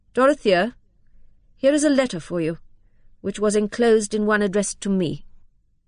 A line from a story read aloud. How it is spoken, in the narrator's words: he said, in that distant tone which implied that he was discharging a disagreeable duty